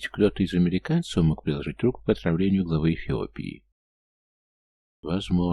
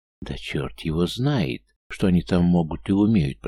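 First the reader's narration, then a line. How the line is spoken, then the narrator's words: Hissing. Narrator (Russian): прошипел Громыко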